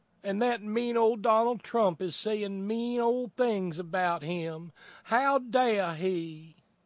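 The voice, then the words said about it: Put-on Southern accent. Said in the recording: “I don't know why I'm doing this in a Southern accent.”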